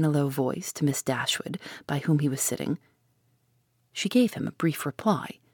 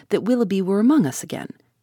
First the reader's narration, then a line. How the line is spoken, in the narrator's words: cried Sir John